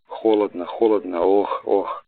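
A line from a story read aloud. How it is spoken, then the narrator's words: Sick man moaning. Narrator (Russian): застонал опять больной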